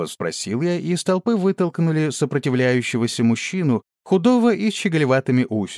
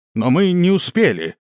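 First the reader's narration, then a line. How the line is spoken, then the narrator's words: Indignant shout. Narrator (Russian): снова выкрикнул кто-то и довольно возмущенно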